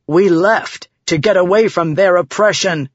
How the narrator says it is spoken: Vatha bellowed

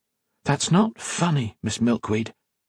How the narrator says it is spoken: Modo whispered

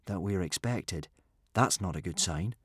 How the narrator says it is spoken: said Hiccup grimly

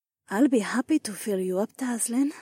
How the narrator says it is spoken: Nora breathed

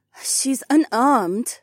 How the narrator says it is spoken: Heiwan sighed

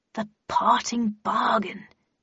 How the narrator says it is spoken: she muttered happily

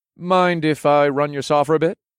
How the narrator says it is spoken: asked in a casual tone

